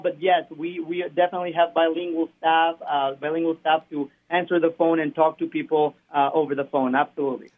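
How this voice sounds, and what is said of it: Spanish accent in English. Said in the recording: “as you can probably hear my accent, I speak Spanish as well”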